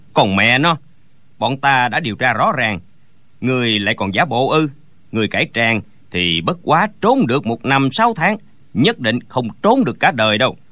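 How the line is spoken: Sneering. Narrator (Vietnamese): Gã cao kèo lại cười khẩy

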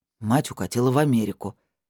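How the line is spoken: Grumbling. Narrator (Russian): буркнул Пётр

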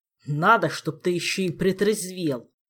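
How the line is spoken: Growled. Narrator (Russian): Прорычал Элмар

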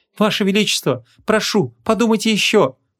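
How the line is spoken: Pleading. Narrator (Russian): взмолилась Марадея

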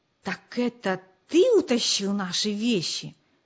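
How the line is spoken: Whisper. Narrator (Russian): прошептал Джо

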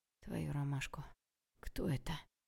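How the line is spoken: Grim thought. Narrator (Russian): Мрачно подумала я, готовясь к самому худшему

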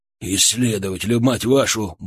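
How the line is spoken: Man grumbling. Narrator (Russian): буркнул мужчина

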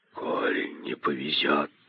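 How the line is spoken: Hissing. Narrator (Russian): прошипел один

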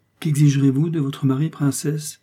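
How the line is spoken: Playful tone. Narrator (French): dit d'un ton enjoué

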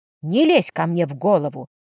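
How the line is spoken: Growled. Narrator (Russian): рыкнула я

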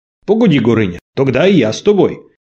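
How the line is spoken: Young lad shouting from crowd. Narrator (Russian): крикнул из толпы невысокий, сухощавый парнишка

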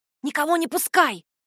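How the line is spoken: Hissed. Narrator (Russian): прошипела

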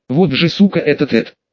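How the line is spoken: Irritated, switching language. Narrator (Russian): сказала Клава раздраженно, незаметно переходя на язык родных

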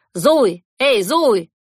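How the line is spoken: Shouted after someone. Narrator (Russian): крикнул он вслед

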